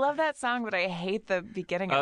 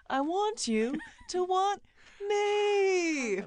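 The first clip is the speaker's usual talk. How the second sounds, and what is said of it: Sung impression of a song's opening. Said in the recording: “That's a pretty good impression of that.”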